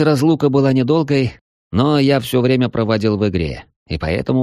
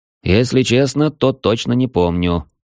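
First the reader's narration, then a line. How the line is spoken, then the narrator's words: Snort. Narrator (Russian): хмыкнул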